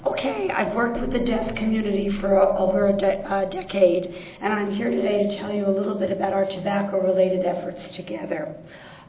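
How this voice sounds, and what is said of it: Hoarse, nearly lost voice. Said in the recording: “This is what I woke up sounding like today... lost my voice”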